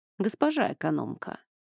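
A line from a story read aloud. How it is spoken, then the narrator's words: Cooing. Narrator (Russian): проворковал Эней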